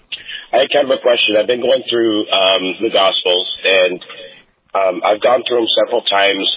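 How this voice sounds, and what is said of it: Voice affected by a cold. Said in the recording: “pardon my voice, I'm catching a little bit of a cold here.”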